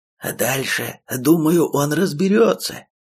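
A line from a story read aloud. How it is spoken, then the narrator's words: Cheerful snorting reassurance. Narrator (Russian): Радостно фыркая, успокоил Тоха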